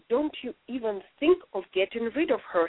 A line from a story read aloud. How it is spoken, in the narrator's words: she said